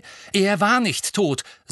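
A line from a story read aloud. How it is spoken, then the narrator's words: Angry. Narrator (German): sagte Harry zornig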